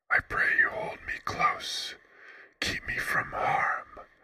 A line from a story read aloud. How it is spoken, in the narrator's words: whispered